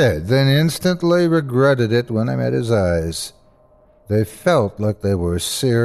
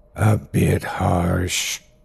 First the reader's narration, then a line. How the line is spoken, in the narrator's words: he croaked softly, though there was poison in every syllable